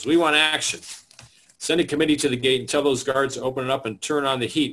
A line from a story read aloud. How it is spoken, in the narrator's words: Ruther shouts back